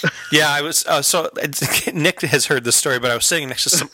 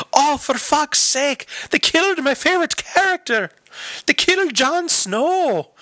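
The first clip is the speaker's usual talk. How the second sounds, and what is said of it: Silly put-on Irish accent. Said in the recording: “A silly ass accent ... a little Irish lady”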